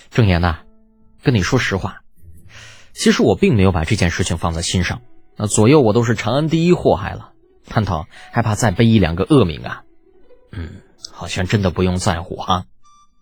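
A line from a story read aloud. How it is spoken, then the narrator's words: Sighing, sincere. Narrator (Chinese): 李浩的叹了一口气，很是真诚道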